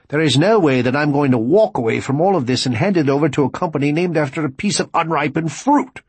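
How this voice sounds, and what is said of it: Angry, passionate British-accented voice. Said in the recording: “an almost angry voice with a British accent ... He spoke with more passion than anyone had ever heard from him.”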